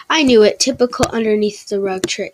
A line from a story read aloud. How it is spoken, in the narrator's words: he laughed